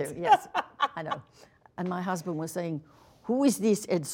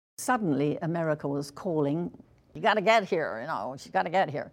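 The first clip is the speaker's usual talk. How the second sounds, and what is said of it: Put-on American accent. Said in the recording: “That's your American accent?”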